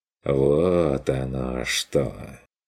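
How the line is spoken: Drawling, smirking. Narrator (Russian): протянул он с усмешкой

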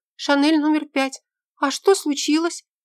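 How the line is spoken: Frightened squeak. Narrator (Russian): пискнула она испуганно

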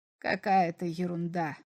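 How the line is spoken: Grumbling. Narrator (Russian): проворчал комиссар

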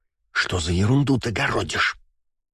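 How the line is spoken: Hissed into the ear. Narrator (Russian): прошипела мне на ухо Валькирия, когда я чуть отодвинулся от микрофона

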